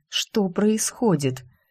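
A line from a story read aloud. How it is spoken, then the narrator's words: Puzzled, through gritted teeth. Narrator (Russian): Илья недоуменно цедит сквозь зубы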